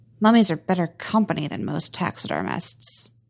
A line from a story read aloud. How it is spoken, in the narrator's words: muttered Ben